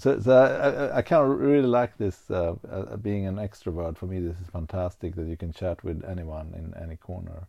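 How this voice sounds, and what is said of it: Unusual foreign accent, mistaken for Swedish. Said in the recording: “my weird accent. It's just like a lot of people picks up on it ... thought I was from Sweden”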